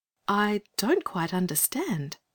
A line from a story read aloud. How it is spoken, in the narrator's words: said Anthea gently